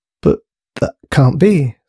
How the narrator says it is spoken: stuttered Thomas to himself

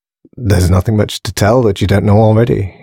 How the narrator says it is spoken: sighed, squirming uncomfortably

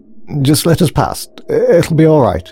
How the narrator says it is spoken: stuttered Grace anxiously

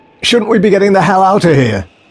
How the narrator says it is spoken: shouted the soldier in panic

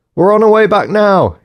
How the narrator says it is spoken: he shouted

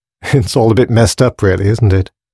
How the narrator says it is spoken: She laughed lightly

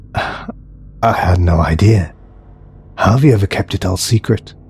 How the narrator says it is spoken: breathed Alex

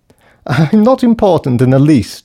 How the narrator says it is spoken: she laughed

